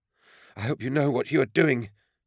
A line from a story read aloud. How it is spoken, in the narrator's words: panted